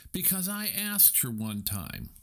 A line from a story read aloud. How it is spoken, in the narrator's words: cried Stuart